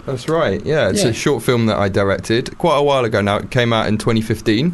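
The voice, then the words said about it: Strong radio voice. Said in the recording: “you have a radio voice and a half”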